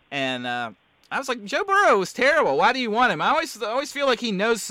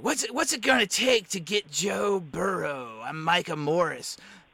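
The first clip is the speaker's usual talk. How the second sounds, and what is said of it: Imitates another person's voice. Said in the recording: “my Micah impression.”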